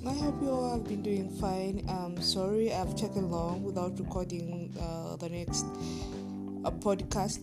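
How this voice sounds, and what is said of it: Deeper, hoarse voice. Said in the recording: “my voice is going to sound a little bit deeper ... sometimes I have this hoarse voice, like I sound like more of a man”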